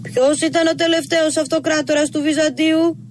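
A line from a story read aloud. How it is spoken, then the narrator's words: Louder, muffled from inside. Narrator (Greek): ρώτησε από μέσα, πιο δυνατά αυτή τη φορά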